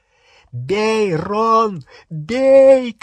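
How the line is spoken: Shouting. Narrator (Russian): кричал Гарри

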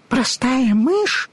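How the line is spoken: Indignant squeak. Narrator (Russian): в негодовании пискнула мышка

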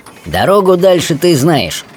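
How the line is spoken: Cheerful. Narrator (Russian): бодро сказал

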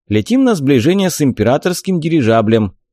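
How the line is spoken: Cheerful report. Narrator (Russian): бодро отрапортовал Джек

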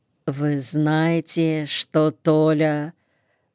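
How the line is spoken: Quiet question. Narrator (Russian): Та тихо спросила

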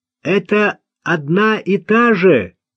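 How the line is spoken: Shouting. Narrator (Russian): крикнул он

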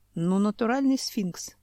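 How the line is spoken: Sighing. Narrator (Russian): вздохнул Семен

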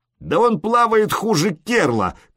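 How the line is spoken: Shout. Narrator (Russian): крикнул

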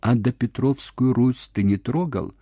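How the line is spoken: Peaceful, calm voice. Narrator (Russian): сказал мирным голосом

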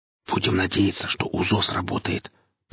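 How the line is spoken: Whisper. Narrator (Russian): прошептал Гриф

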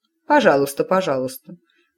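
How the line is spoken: Mother grumbling. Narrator (Russian): пробурчала матушка

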